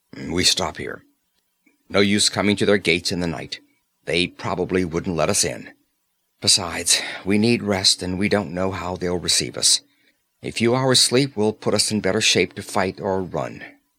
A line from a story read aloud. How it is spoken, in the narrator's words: Conan ... grunted